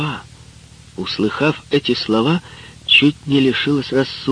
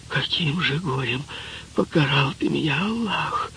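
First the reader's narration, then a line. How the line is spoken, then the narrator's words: Terrified whisper. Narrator (Russian): в ужасе зашептала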